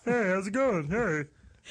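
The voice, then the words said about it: Imitates another person's voice, Muppet-like. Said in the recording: “this is my Ray Romano... I sound like a Muppet”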